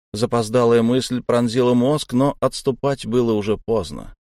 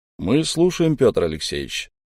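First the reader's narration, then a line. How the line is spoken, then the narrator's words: Calm and friendly. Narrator (Russian): спокойно и доброжелательно, как будто давно ждал этих слов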